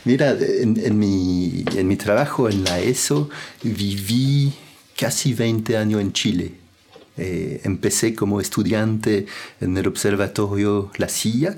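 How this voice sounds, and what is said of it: Non-native accent speaking Spanish. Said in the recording (Spanish): “uno escucha tu acento y uno se da cuenta que tú no eres de habla hispana”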